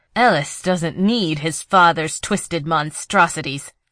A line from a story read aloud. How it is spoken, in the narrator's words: Nissa said through clenched teeth